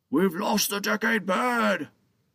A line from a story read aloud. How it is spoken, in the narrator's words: the guard shouted frantically